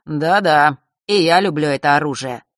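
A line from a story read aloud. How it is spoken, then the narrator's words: Mocking drawl. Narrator (Russian): насмешливо протянул он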